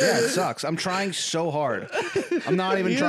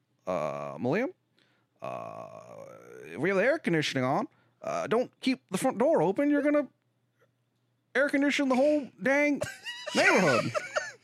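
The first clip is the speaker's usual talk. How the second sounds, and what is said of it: Impression that drifts into another character. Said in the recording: “every time I do an Obama impression, it turns into Hank Hill halfway through”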